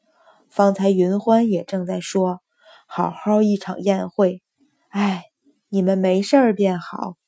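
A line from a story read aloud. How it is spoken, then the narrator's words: Old lady sighing. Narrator (Chinese): 老夫人…叹道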